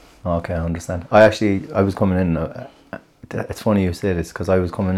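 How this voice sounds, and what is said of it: Usual voice. Nothing is said of it.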